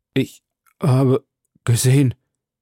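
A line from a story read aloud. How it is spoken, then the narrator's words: Stammered. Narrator (German): stammelte er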